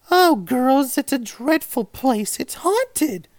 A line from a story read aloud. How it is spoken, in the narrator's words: tearfully proceeded